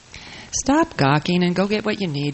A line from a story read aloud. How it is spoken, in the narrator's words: Shelley says